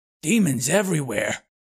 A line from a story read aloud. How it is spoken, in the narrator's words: Bothersnatch growled